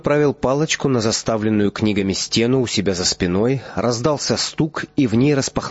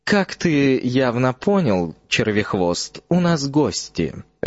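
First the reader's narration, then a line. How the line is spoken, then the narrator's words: Lazy drawl. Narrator (Russian): лениво произнес Снейп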